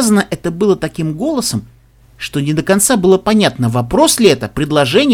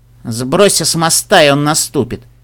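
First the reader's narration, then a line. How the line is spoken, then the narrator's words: Gloomy advice. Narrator (Russian): мрачно посоветовала розовая земнопони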